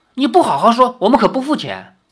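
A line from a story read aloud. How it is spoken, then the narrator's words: Angry. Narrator (Chinese): 林月如怒道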